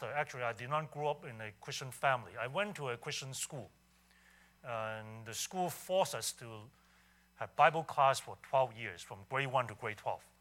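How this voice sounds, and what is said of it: Hong Kong accented English. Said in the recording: “bear with me with my accent ... I grew up in Hong Kong”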